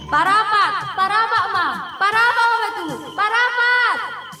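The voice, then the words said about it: Young woman shouting. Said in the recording (Indonesian): “suara anak kita ... kenapa dia berteriak?”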